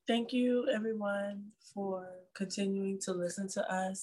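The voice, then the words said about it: Nice polite customer service voice. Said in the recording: “Look at the nice voice. ... this is my customer service voice”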